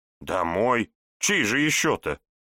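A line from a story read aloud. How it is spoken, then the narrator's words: Snorting. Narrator (Russian): фыркнула Елена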